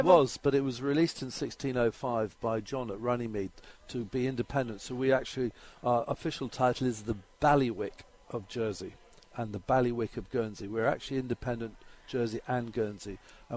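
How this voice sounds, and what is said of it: Jersey accent, somewhat South African-sounding. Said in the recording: “I'm Jersey, and that's my local accent, a bit like South African. ... It is a bit like South African. ... My Jersey accent.”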